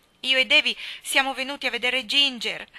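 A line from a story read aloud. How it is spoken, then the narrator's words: Sobbing. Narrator (Italian): singhiozzò Dora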